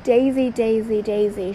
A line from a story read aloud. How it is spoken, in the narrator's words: shouted Mrs